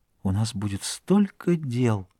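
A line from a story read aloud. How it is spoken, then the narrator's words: Whisper. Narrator (Russian): Она прошептала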